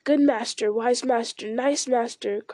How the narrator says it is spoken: cried Gollum in delight

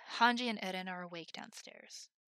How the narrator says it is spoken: he sighed

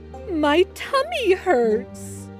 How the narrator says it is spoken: he said between sobs

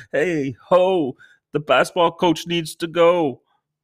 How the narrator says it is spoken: All parents, we stand outside of the freaking school with protesting signs and yelling

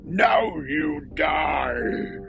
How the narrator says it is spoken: he growled

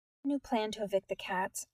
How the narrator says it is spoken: Nyx whispered

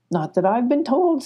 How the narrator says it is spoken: said Mama Owl

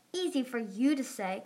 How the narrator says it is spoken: Glory snapped

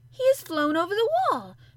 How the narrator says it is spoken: Mary cried out

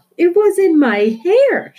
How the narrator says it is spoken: shouted

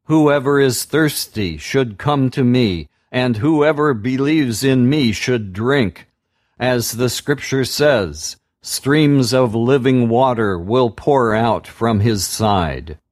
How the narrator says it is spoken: Jesus stood up and said in a loud voice

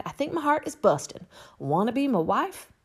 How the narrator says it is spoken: cried

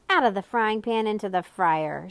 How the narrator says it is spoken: shouted the Count, burning himself badly

